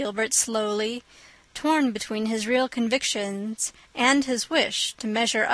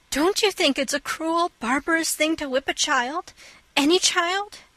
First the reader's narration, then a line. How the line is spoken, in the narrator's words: exclaimed Anne, her face flushing with earnestness